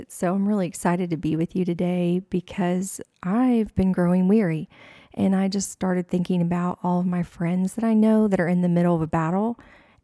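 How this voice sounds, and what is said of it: Groggy just-woke-up voice. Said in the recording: “I just woke up and my voice sounds like it.”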